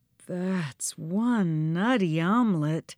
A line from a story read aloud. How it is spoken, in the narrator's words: Joe breathed